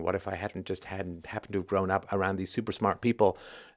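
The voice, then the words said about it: Funny little pseudo-intellectual accent. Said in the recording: “this funny little pseudo intellectual accent”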